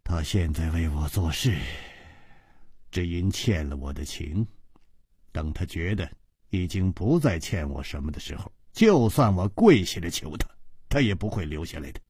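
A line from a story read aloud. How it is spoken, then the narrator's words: Sighing. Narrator (Chinese): 他像是叹了一口气，然后接着说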